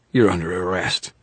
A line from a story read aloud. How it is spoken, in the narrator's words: she wheezed